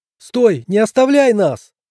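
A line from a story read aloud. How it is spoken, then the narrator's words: Shouted, woman. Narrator (Russian): крикнула стоящая рядом женщина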